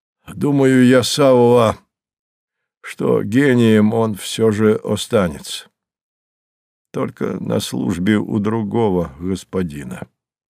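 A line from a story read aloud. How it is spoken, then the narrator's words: Coughing, deep bass. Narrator (Russian): Горький закашлялся и пробасил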